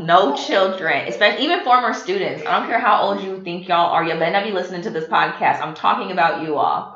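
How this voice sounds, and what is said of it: Stern scolding teacher voice. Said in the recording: “that's my teacher voice. Did it change, son? ... It did. ... I know how to fuss.”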